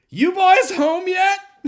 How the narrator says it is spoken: who shouts at him

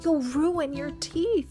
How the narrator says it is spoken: cried George

